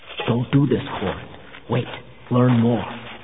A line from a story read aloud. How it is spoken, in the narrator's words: saying in a low voice